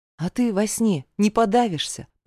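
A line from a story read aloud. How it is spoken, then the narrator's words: Sighing reminder. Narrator (Russian): вздохнув, напомнила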